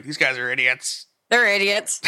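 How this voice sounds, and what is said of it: Nerdy Simpsons-geek character voice. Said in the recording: “doing this voice ... that's what they sound like ... they sound like the Simpsons geeks”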